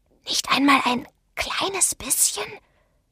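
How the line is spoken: Whisper. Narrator (German): flüsterte Douglas Benson

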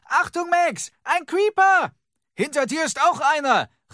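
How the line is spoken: Called out. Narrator (German): rief Henry Lucy zu

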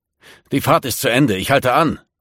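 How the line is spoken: Bellowing. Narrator (German): brüllte Hockensen

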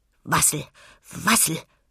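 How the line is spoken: Busy murmur. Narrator (German): murmelte geschäftig

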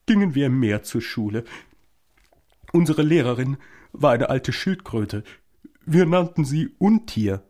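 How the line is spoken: Continuing with occasional sobs. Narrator (German): fuhr die falsche Suppenschildkröte fort, sie schluchzte nur noch gelegentlich einmal auf

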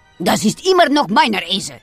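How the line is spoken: Growling. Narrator (German): antwortet Herr Gottone knurrend

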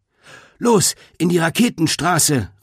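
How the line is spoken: Calling to others. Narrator (German): rief Greta den anderen zu

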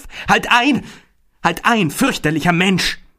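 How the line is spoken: Terrified scream. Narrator (German): Übermannt von tollem Entsetzen schrie auf

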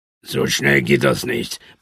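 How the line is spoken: Mutter. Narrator (German): murmelte Adiaba

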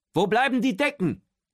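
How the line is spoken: Calling from the stairs. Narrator (German): ruft Otto von der Treppe

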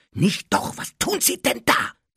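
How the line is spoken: Hissed. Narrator (German): zischte Harry

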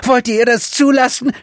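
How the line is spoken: Shouting in faces. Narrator (German): schrie er den Umstehenden ins Gesicht

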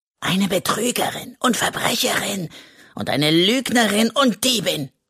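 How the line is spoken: Hissing. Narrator (German): zischt er

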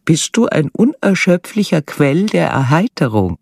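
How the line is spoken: Giggling. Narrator (German): sie musste kichern

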